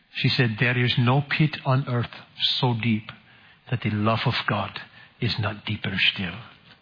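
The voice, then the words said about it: Put-on Dutch accent. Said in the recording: “this is my best Dutch accent.”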